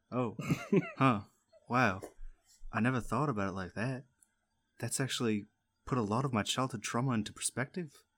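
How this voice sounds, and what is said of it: Switched into a different accent. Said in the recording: “Oh, I switched into a different accent.”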